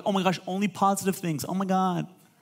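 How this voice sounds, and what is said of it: Valley girl voice. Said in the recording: “I love doing the valley voice.”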